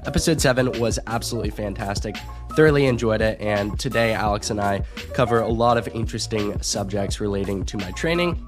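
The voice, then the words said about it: Sick voice, has a cold. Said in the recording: “I sound a little sick ... dealing with a little bit of a cold ... just a little more sick for this introduction”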